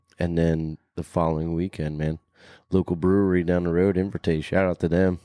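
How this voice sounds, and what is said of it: Deep, strained hoarse voice. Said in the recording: “my voice is velvet ... so deep ... it's hurting”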